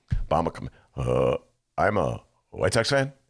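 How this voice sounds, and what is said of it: Imitates another person's voice, poorly. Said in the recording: “my Obama imitation... That's awful”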